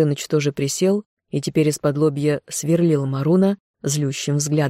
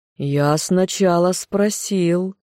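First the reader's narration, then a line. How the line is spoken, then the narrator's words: Surprised drawl. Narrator (Russian): Марун протянул удивленно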